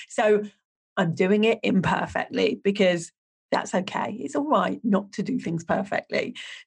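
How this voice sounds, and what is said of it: Unsteady, cold-affected voice. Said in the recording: “My voice is all over the place today because I caught my second bout of COVID... all I've got is what feels like a cold, but my voice comes and goes”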